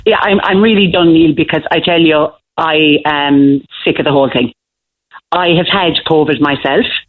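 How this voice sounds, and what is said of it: Irish Kerry accent. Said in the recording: “I'm a Kerry woman and everybody knows my accent”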